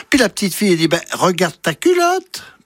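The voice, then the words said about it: Swiss Vaud accent. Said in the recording (French): “Ça se passe dans le canton de Vaud, vous avez entendu l'accent.”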